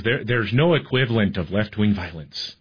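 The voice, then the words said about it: Poor put-on Irish accent. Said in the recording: “he's a little Irish guy... That's a terrible accent.”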